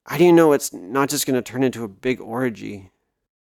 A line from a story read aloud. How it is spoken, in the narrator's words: Paul sighed